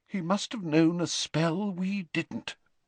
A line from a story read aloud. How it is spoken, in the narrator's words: whispered McGonagall